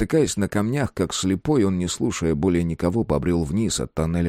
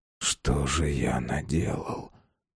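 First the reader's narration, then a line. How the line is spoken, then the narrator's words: Muttered. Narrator (Russian): пробормотал он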